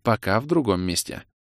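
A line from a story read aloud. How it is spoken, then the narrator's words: Soft. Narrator (Russian): мягко сказала Элинса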